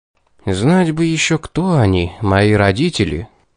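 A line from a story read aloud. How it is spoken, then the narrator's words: Meaningful sigh. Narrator (Russian): вздохнул я с намеком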